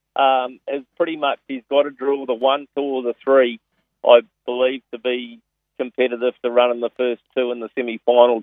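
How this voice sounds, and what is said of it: New Zealand accent. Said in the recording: “I certainly detect a Kiwi accent there... I haven't lost the accent.”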